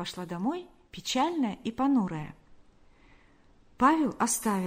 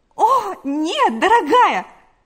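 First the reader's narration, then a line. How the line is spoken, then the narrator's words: Exclaimed. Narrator (Russian): воскликнула Галя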